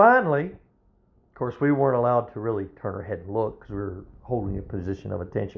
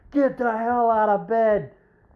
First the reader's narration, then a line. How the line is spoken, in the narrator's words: two drill instructors screaming in his ears